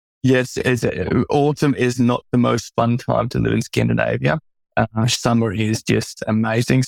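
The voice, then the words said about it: Australian accent. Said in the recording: “your accent gives you away ... you hail from Darwin, Australia”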